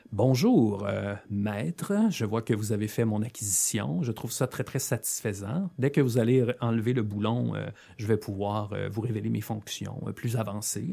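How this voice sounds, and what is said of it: Formal protocol droid voice. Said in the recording (French): “il te parle comme un droïde de protocole avec un vocabulaire, un accent, une érudition”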